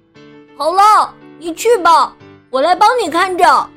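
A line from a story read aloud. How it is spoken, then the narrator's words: Calling down loudly. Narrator (Chinese): 朝下面的克莱尔喊道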